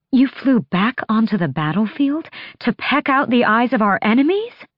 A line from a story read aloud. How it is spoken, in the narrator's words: Her gasp echoed off the rock